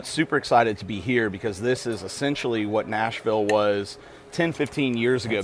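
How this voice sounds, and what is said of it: Nashville, Tennessee accent. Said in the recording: “my funny accent as opposed to everybody else's, I'm from Nashville, Tennessee originally”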